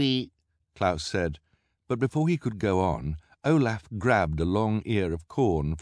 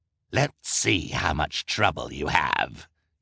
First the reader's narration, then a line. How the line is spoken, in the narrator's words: snarled